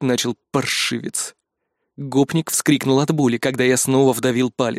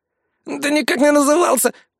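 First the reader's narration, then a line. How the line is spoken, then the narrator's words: Hoarse wheeze. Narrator (Russian): просипел гопник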